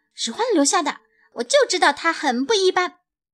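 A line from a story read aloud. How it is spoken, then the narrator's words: Shouting. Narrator (Chinese): 野兔叫道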